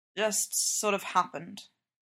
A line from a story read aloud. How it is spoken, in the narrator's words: Clint mumbles